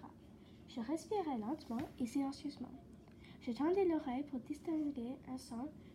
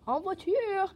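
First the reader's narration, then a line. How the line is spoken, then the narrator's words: Conductor shouting. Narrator (French): cria le chef de train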